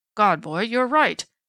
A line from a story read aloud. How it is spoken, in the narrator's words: Strawn exclaimed, and his heavy old face was very pale